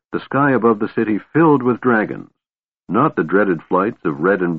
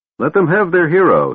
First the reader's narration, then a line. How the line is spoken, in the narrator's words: said above the shouting